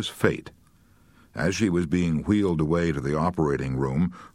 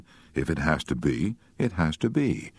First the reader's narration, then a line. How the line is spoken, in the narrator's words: said quietly